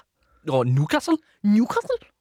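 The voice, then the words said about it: Good put-on Newcastle accent. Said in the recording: “let me hear your Newcastle accent ... Oh, no, that's even better than mine. Do it again. ... That's good. I'm jealous.”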